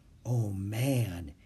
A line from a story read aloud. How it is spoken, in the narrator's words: he whispered